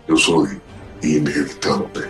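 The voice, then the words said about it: Imitates a movie villain's voice. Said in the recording (Spanish): “¡Qué voz!”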